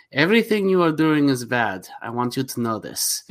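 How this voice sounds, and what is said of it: Impression of Vigo from Ghostbusters. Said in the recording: “He's Vigo. ... pretty good impression”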